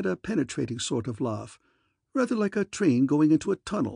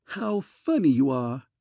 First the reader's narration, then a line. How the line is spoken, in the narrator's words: laughed with considerable vim